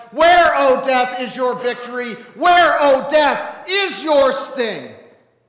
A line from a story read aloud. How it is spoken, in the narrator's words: shout at death